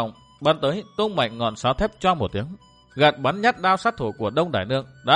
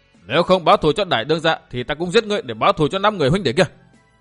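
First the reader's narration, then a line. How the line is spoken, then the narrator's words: Sudden interrupting shout. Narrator (Vietnamese): Châu Bưu bỗng xen vào quát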